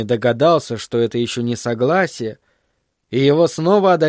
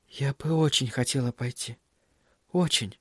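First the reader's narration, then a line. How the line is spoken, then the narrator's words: Quiet, barely audible. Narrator (Russian): Кэрри тихо, едва слышно произнесла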